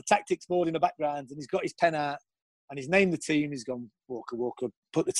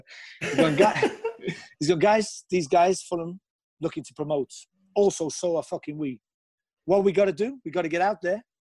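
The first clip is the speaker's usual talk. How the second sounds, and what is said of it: Imitates another person's voice. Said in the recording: “I'm going to do his accent because it's always better. It's nothing like him, by the way.”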